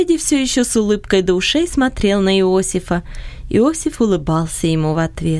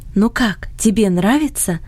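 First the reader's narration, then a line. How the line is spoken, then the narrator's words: Whisper in ear. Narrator (Russian): шепнула она на ухо Фредди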